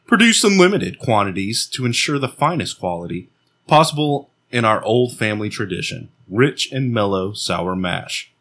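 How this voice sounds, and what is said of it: Announcer-style radio voice. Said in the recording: “Best radio voice ... That's my radio voice”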